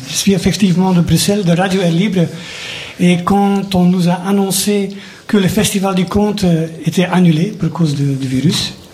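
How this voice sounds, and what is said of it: Parisian-sounding French accent. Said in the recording (French): “À mon accent, vous pouvez penser que je suis parisien, mais ce n'est pas le cas.”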